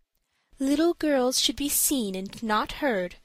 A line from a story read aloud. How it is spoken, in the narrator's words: said her mother gently